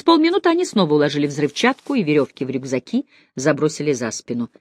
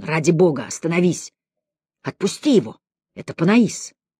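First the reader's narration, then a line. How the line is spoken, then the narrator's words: Whisper. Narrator (Russian): его шепота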